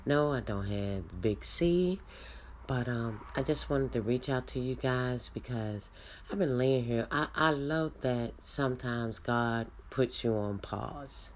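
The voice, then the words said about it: Congested, sick-sounding voice. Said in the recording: “I've been a little under the weather. I know you can hear it in my voice, my nose”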